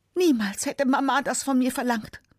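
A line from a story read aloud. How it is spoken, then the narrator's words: Screaming. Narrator (German): schreit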